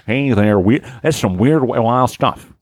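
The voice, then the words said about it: Imitates another person's voice. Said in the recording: “I'm doing Johnny, baby.”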